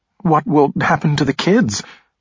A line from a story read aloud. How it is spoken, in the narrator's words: Blaze asked in a shaking voice